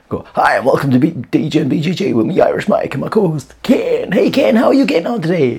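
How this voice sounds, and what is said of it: Radio DJ announcer voice. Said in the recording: “I just come in like a radio DJ voice for the crack”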